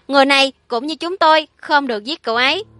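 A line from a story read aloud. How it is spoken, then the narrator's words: Hurried shout. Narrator (Vietnamese): Tôi vội vàng hét lên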